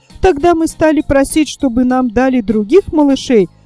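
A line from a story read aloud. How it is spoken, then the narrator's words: Fast, hurried speech. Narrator (Russian): снова подхватила Кисонька и заговорила быстро, чтобы Ласточка не перебила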